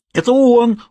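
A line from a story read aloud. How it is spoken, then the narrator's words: Shrieked. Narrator (Russian): завопила мадам Эмили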